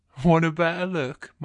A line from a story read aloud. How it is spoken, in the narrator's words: my guy says, chuckling